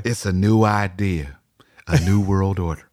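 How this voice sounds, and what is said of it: Impression of George Bush. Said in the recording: “That's a pretty good impression”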